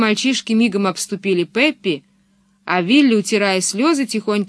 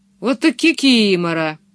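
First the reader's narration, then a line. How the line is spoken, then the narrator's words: Laughing hard. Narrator (Russian): Его прямо скрючило от смеха, он хохотал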